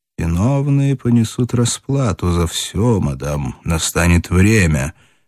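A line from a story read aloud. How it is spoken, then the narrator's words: Quiet, in German. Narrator (Russian): негромко сказал по-немецки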